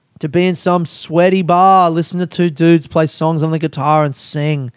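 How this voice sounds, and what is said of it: Worn-out, strained voice. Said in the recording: “listen to my voice. My voice is cooked.”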